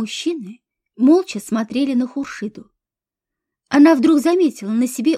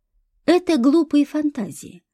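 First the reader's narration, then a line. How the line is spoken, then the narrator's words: Even voice. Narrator (Russian): ровным голосом произнес Борис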